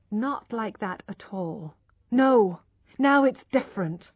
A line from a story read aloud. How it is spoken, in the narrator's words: she said firmly